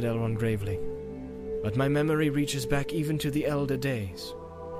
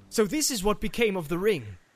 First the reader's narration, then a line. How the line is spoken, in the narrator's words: he cried